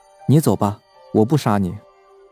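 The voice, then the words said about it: Soft, quiet spoken line. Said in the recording (Chinese): “小声说”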